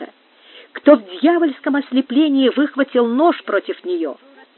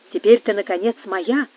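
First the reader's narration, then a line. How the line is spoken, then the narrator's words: Repeating. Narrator (Russian): повторял Мануэль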